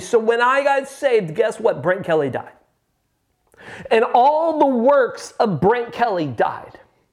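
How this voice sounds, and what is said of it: Loud, near-yelling preaching voice. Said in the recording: “I hope I'm not yelling. ... I'm hitting the red mark on my meter here. ... Let me know if my volume's crazy”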